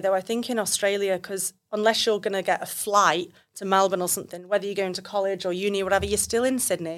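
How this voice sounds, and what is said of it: English accent. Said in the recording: “you're back over from England, if no one's realised from the accent by now”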